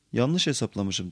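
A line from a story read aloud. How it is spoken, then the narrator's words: Plain. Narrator (Turkish): dedi Frodo'ya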